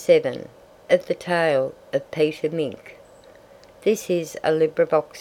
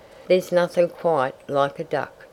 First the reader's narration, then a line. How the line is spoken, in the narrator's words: he said